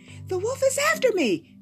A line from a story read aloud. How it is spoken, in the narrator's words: cried Little Red Riding Hood